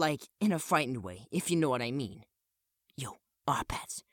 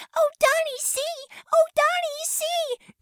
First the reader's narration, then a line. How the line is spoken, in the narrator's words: screaming